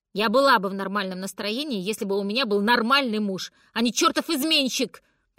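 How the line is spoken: Angry shout, mother. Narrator (Russian): прокричала мама

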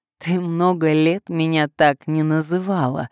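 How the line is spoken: Laughing. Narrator (Russian): рассмеялся он

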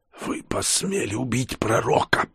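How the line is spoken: Hoarse rasp. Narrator (Russian): прохрипела она

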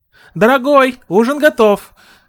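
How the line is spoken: Mother calling out. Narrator (Russian): крикнула ему мать

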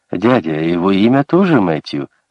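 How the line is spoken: Happy boy. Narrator (Russian): радостно сообщил мальчик

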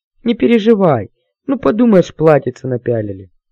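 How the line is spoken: Sobbing. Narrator (Russian): рыдала страдалица

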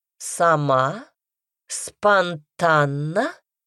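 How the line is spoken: Drawling. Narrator (Russian): протянула королева

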